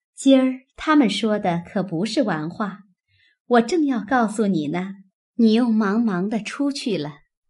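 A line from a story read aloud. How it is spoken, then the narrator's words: Laughing woman. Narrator (Chinese): 宝钗笑道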